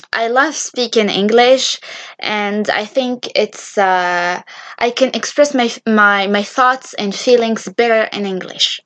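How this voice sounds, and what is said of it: Non-native English accent. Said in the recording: “English is my third language actually. My first language being Arabic, my second language is French ... I'm sorry if my accent is a little bit horrible”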